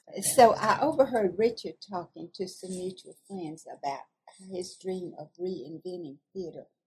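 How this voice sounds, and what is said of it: Southern American accent. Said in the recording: “When I speak with my southern accent, people tend to laugh. ... I love your accent. It's delightful.”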